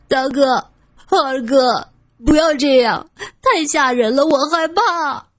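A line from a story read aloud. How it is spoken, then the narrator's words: Frightened crying out. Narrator (Chinese): 郑离哭喊着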